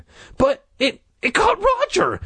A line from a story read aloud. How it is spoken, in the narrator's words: Jay cried shrilly